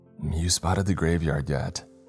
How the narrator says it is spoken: whispered

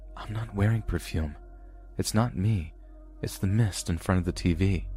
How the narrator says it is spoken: whisper back

